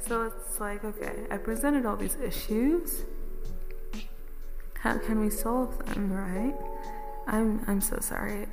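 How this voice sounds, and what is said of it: Vaguely British put-on accent. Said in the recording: “I slipped into a vaguely British accent there... I have been slipping in and out of it all day”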